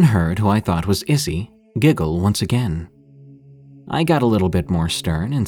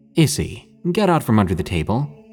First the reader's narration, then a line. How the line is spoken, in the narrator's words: I said in a slightly stern voice